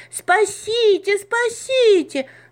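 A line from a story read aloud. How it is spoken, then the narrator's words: Scream. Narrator (Russian): закричала Маша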